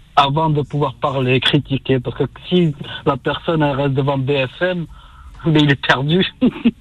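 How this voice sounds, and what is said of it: Toulouse French accent. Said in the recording (French): “ton joli accent toulousain”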